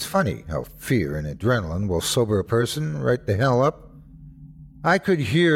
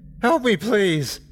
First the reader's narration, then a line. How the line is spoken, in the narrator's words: I cried